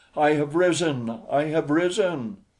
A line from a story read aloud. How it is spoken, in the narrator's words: she cried